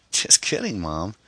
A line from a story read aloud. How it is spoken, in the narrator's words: Amy chuckled